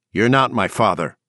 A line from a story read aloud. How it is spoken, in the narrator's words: Leandro said sharply